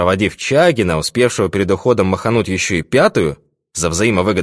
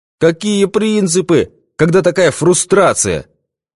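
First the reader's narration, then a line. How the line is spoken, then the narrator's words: Exclamation. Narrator (Russian): воскликнул изобретатель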